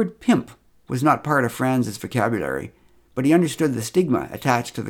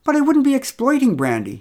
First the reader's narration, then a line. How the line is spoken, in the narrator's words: exclaimed